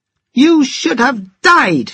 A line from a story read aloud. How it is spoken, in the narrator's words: shouted